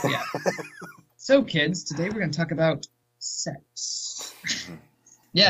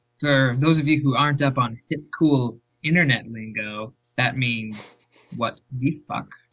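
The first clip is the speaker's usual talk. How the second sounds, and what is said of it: Creepy put-on teacher voice. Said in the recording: “Dude, that sounds so creepy. ... That was my teacher voice when I have to say something inappropriate”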